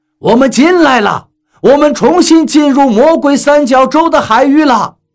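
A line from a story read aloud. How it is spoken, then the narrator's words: Captain shouting. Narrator (Chinese): 船长喊道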